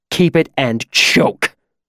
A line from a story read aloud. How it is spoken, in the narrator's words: he hissed at me in a low voice